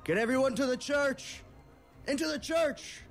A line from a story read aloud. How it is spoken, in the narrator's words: Nazir, the town sheriff, who shouts out to his deputy and says